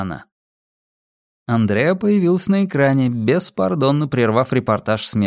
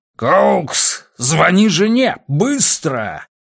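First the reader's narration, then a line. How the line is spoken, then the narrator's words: Roaring. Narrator (Russian): проревел Симмонс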